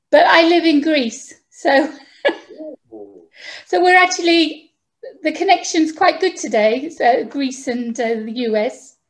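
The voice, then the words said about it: British accent. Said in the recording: “As you can tell from my accent, I'm actually from the UK.”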